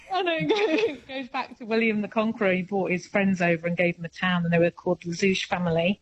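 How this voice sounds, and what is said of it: British English accent. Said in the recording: “you have a British accent, don't you?”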